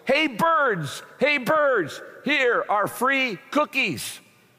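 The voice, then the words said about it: Loud shouting voice. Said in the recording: “he shouted in a loud voice”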